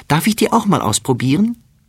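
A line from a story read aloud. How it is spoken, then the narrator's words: Calling out. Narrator (German): ruft sie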